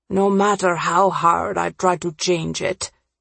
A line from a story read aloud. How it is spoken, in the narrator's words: Furious, he paused before muttering